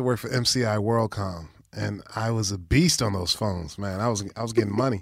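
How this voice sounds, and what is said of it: Usual voice. Nothing is said of it.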